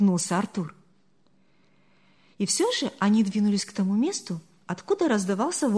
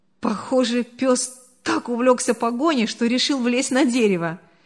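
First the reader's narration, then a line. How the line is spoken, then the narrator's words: Laughing comment. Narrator (Russian): сквозь смех прокомментировал Артур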